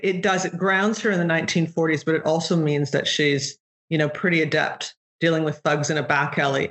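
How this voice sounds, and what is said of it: Mixed accent dipping between influences. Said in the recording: “you have a fantastic and fascinating accent, ... where it it sort of dips in and out of these uh, interesting mixes”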